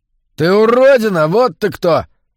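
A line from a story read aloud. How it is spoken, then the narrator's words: Sudden yell. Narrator (Russian): Вдруг заорал он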